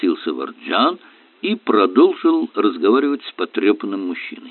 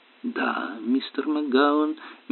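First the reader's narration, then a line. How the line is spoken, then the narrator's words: Soft question. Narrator (Russian): мягко спросил Варджан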